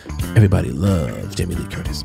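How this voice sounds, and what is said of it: Exaggerated deep voice. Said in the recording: “I said it in such a deep voice”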